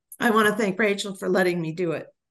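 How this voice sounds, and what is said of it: Emotional, strained voice. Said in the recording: “I'm getting emotional.”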